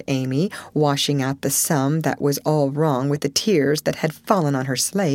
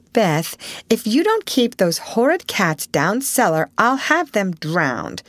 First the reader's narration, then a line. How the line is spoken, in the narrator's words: exclaimed Meg angrily as she tried to get rid of the kitten